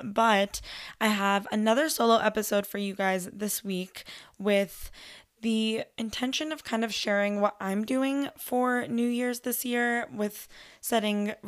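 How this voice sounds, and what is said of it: Hoarse, partly lost voice. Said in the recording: “I'm sorry if my voice sounds like this. I've lost it a little bit”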